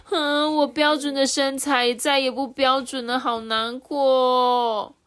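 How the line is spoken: Crying. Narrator (Chinese): 娜娜哭着说

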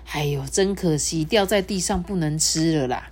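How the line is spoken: Regretful sigh. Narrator (Chinese): 老狐狸 忍不住叹气的说

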